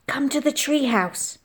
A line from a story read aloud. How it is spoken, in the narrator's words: I hissed